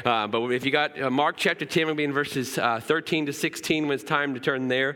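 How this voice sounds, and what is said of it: Strained, unwell-sounding voice. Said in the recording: “in advance for my voice. If I cough, if I make any kind of ungodly noise ... hopefully my voice hangs in there ... I sound weird ... This is my voice this morning”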